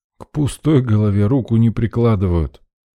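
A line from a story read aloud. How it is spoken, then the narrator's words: Grumbled. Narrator (Russian): Проворчал я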